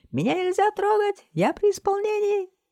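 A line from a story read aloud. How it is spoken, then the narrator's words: Squeak. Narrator (Russian): Пискнул он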